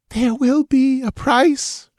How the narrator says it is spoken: she breathed

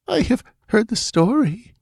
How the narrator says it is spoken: faltered Taramis

